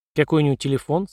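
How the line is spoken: Plain question. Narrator (Russian): спросила Эпплгейт

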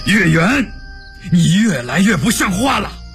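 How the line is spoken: Furious scolding. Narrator (Chinese): 陈廷敬大怒骂道

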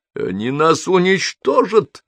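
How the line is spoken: Near shout. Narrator (Russian): почти крикнул изобретатель

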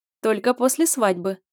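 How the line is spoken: Laughing. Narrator (Russian): засмеялась я

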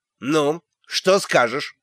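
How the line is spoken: Sharp question. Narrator (Russian): резко осведомился он

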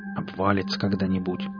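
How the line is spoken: Grumbled. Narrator (Russian): буркнул Валдис

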